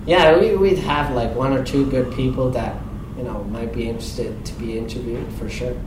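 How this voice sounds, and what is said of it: Swiss accent. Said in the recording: “my Swiss accent”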